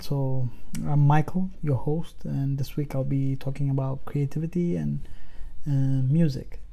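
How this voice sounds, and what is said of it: Sick, strained throaty voice. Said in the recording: “I apologize for my voice. It's kind of, you know, there's a nasty flu going around and it's kind of hijacked my throat for a while.”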